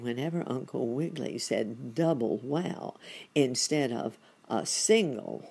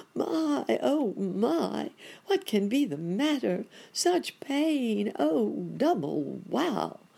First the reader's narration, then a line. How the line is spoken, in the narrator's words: exclaiming